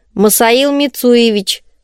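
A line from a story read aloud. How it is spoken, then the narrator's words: Stern correction. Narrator (Russian): строго поправил служитель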